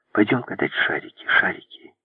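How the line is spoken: Whisper from behind. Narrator (Russian): Сзади Огастес шептал

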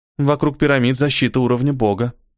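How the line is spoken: Calmly said. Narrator (Russian): спокойно сказала красавица

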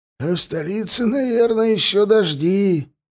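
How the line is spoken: Hoarse voice from behind stove. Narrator (Russian): послышался сиплый голос Тендара из-за печи

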